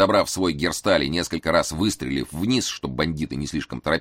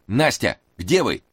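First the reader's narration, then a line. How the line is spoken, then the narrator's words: Shouting. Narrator (Russian): крикнул Эраст Петрович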